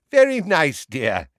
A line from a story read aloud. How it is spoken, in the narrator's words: said Neville's grandmother in a falsely cheery voice